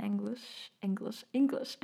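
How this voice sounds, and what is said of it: German-accented pronunciation of English. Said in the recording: “that was my German accent”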